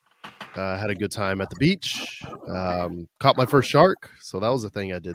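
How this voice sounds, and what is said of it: Hoarse, worn-out voice. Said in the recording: “I don't have a voice ... I'm tired ... My voice is shot.”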